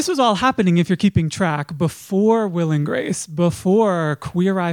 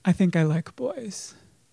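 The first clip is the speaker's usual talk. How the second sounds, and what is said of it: Slightly lowered voice. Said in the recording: “My voice is a little, just, just a little lower this time.”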